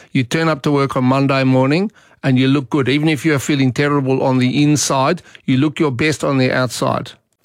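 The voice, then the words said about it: Imitated South African accent. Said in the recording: “I had a South African boss ... Apologies to any South Africans listening if I mangled your accent, which I probably did.”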